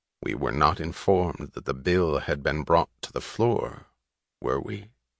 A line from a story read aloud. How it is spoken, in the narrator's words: he asked, his voice controlled and dry